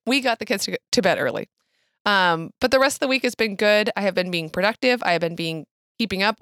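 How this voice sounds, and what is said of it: Worn-out, strained voice. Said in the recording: “I think you can hear in my voice, though, I overdid it a little bit.”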